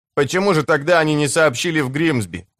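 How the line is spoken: Plain question. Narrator (Russian): спросил Зелетка

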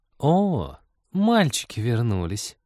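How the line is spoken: Purring. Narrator (Russian): промурлыкала включившаяся Маша

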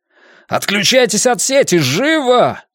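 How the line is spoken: Yelling. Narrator (Russian): завопил я

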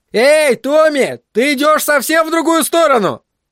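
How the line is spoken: Shouting while running. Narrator (Russian): крикнул на бегу Брент Джиллиан

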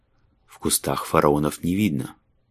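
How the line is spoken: Muttered. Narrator (Russian): пробормотал он

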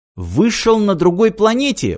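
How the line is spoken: Exclamation. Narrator (Russian): воскликнул Мартин

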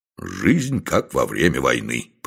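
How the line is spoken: Grumbling. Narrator (Russian): проворчал Дюк

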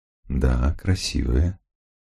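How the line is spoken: Tender reply. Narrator (Russian): ласково ответил мужчина

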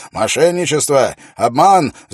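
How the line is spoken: Shouting. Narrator (Russian): закричал он вслед за Уиллом

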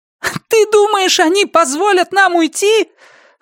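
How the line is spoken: Loud, barely intelligible shouting. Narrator (Russian): Она кричала так громко, что слова удавалось разобрать с трудом

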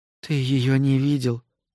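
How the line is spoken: Whisper. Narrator (Russian): прошептала Натали

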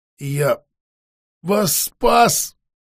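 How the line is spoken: Desperate breathy exhale. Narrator (Russian): с настоящим отчаянием выдохнул он под конец

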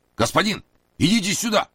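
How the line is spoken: Shouting from outside. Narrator (Russian): закричал с улицы Масса

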